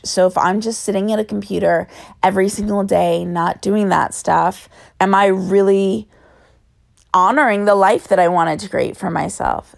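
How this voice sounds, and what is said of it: Raspy voice. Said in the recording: “Sorry for my raspy voice.”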